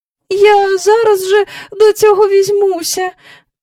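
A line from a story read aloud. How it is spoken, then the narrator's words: Weak voice. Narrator (Ukrainian): промовила місіс Бенкс кволим голосом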